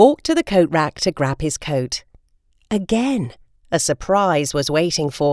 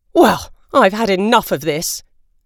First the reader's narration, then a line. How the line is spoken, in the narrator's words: Father snorted angrily